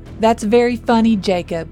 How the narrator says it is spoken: Noah yelled back

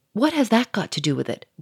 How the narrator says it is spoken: growled the millionaire quickly

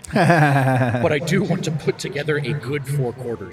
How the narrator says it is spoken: he said with a hearty laugh

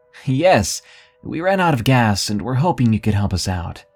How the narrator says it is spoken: Sam shouted

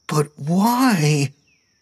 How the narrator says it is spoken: Steve whined, dragging out the last word for far too long

